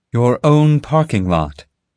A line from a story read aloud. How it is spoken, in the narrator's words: Molly replied